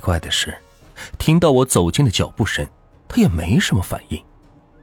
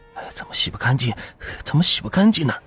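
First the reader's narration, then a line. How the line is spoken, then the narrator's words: Soft, repeated muttering. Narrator (Chinese): 嘴里不停的小声嘟囔着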